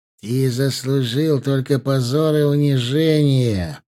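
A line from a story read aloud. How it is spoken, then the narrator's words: Through gritted teeth. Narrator (Russian): процедил Имран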